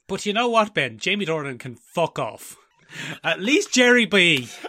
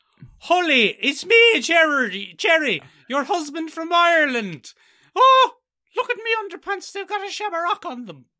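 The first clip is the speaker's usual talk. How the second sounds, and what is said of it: Exaggerated stage Irish accent. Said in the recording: “Awful stage Irish ridiculousness ... an absolute abomination of an accent”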